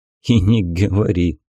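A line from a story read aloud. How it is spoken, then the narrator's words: Young man chuckling. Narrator (Russian): хохотнул парень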